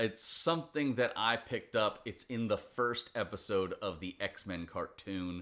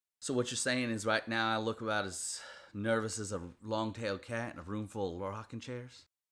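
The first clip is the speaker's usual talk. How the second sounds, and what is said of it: Put-on Southern accent. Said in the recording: “the more my southern accent comes out? ... southern accent.”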